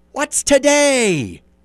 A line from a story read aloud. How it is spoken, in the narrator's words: cried Scrooge, calling downward to a boy in Sunday clothes